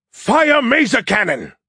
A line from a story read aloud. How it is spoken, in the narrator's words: He roared, his voice booming out of speakers all around the bridge and CIC so loud it made me cringe and my ears ring